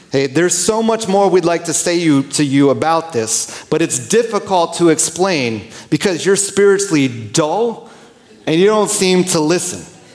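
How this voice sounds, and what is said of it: Aggressive New York accent. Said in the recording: “picture kind of like an aggressive New York accent coming at you”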